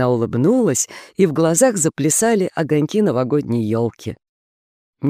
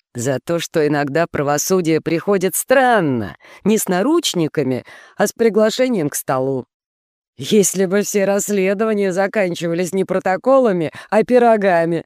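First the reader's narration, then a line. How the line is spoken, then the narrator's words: Laughing. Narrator (Russian): рассмеялся Брандолини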